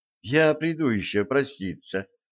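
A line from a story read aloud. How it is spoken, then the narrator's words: Quiet. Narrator (Russian): тихо сказала Стесси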